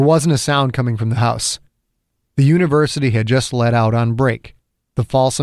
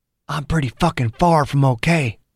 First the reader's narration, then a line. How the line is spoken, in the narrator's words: Dew said quietly, his microphone picking up every sound